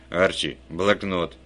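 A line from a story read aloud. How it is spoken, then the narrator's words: Barked command. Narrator (Russian): рявкнул Вульф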